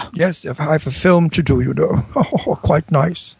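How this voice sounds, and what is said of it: Corny, forced fake English accent. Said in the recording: “a rather nice English accent, I think. But now it's a bit corny and fake... And forced... Actually, I sound Irish.”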